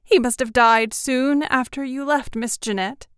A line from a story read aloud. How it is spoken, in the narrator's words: sobbed